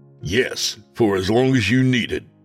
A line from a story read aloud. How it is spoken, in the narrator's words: I snapped back